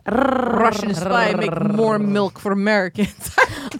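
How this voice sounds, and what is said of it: Put-on Russian accent. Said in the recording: “I can't do that accent ... Russian, I can do this ... Russian spy”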